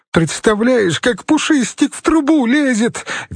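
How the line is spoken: Shrieking with laughter. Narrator (Russian): визжала Инга, катаясь по дивану

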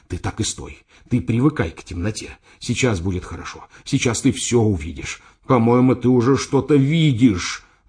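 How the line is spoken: Breathless whisper. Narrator (Russian): задыхаясь, шептал я

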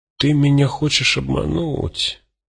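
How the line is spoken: Mutter. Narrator (Russian): пробормотал Цыга

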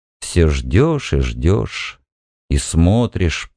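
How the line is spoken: Muttered. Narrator (Russian): пробормотал он

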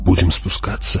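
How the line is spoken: Whispered question. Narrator (Russian): шепотом спросила Джессика

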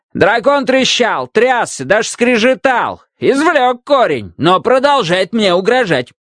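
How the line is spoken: King shouting from doorway. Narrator (Russian): крикнул король еще с порога

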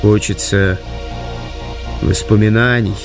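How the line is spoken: Wistful, longing sigh. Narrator (Russian): вздохнул Артур с непонятной тоской в голосе

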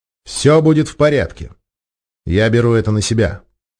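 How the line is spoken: Calm, confident. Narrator (Russian): спокойно произнес уверенным тоном

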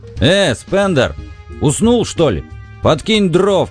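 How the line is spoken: Shout. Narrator (Russian): крикнул Бикс

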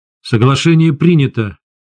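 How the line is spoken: Said angrily. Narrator (Russian): зло сказал я сове

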